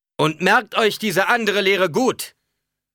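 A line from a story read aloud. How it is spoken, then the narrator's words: Thundering voice. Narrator (German): donnerte er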